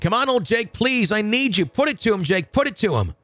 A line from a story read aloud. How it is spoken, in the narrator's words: I started yelling once again